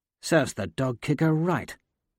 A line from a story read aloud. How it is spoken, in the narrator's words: Severo mutters